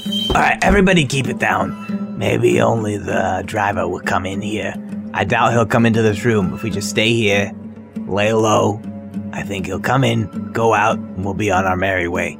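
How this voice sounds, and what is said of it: Very raspy, gravelly smoker's voice. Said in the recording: “Man, it sounds like you just smoked like 600 packs of cigarettes.”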